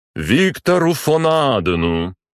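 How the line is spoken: Loud, ceremonial official. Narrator (Russian): Громко, словно был на торжественном мероприятии, проговорил представитель канцелярии

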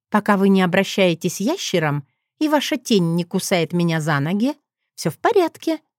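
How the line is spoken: Cheerful. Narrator (Russian): ответила она весело

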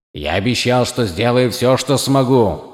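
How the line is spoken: Plain. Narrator (Russian): сказал он

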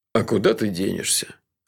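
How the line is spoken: Lazy agreement. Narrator (Russian): лениво согласился тот

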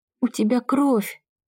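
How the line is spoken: Faltering babble. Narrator (Russian): пролепетала она

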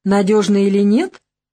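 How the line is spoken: Scoffing grunt. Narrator (Russian): хмыкнул Рассказов

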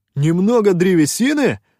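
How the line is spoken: Indignant exclamation. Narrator (Russian): возмущенно воскликнул Шутай

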